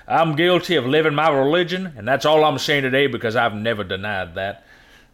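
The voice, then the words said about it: Put-on Southern US accent. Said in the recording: “Why does he have a southern accent? ... you always got to put a southern playing on that.”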